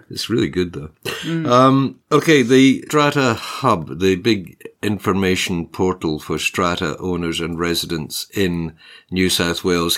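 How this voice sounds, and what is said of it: Scottish Australian accent. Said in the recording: “Maybe it's your accent ... other Scottish people, other Scottish Australians”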